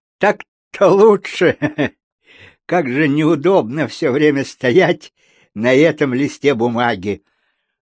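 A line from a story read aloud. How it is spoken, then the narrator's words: Yawning, giggly declaration. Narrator (Russian): весьма невежливо зевнул, глупо хихикнул и заявил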